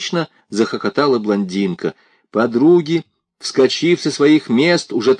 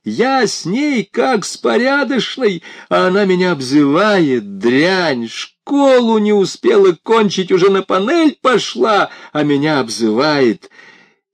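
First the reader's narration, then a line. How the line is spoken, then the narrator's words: Shouting while struggling. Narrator (Russian): Она отбивалась, кричала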